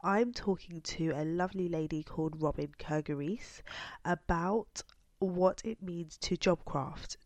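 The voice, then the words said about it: Congested, bunged-up voice. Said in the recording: “you can probably hear from my voice that I am not 100%. I am still bunged up and have not fully got over my cold”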